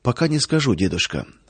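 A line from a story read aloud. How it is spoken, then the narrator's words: Quiet reply. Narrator (Russian): тихо ответил он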